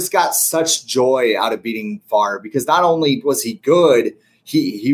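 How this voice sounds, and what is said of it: Usual voice. Nothing is said of it.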